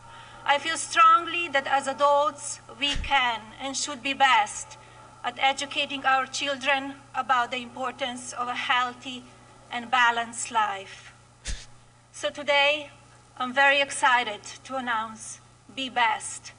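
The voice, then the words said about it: Foreign-accented English. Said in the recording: “make fun of her accent”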